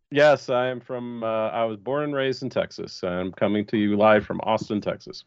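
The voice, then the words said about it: American accent. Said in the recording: “You sound very American.”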